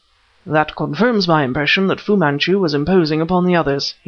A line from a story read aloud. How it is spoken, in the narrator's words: he snapped